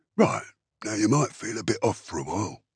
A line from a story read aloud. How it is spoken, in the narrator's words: Drosfang said in a low voice